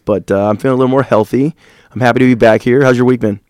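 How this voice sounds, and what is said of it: Slightly raspy voice. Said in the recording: “I got a cold, and I still have a little raspiness to my voice, which I think sounds a little bit cooler than normal”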